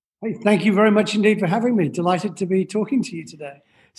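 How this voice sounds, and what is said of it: Scottish accent. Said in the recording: “You are British. I can tell from the accent. ... Well, actually from Scotland.”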